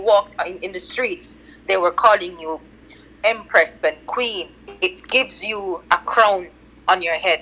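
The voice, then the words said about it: Jamaican accent. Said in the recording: “I absolutely love your accent ... this is definitely authentic ... patois is Jamaican second language”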